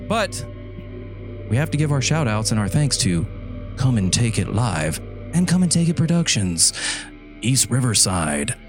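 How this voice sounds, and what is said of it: Horror film announcer style voice. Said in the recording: “I don't know why I sound like a horror film guy”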